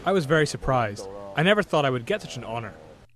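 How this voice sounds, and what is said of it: American-sounding English accent. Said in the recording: “He sounds American.”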